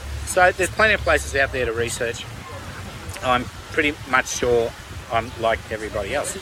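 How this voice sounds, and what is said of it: Strained, fading hoarse voice. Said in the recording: “My voice is going.”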